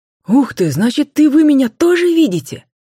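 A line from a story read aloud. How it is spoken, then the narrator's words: Joyful surprised exclaim, whistling. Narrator (Russian): Радостно воскликнул Макар, слегка присвистнув от удивления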